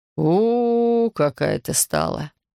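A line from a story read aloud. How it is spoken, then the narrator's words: Disappointed drone. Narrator (Russian): Эдик прогудел разочарованно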